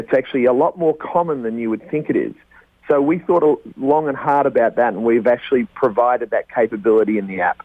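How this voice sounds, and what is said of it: A noticeable, appealing accent. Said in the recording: “Just with that accent alone, I know we're going to get at least another 1,000 listeners.”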